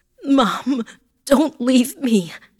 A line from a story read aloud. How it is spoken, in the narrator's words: I cried